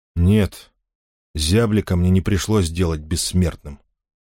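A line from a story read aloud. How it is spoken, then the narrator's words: Cold reply. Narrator (Russian): холодно ответил Мохвату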